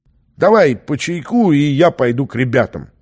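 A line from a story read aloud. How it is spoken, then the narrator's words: Forced cheerfulness. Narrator (Russian): преувеличенно бодро произнес он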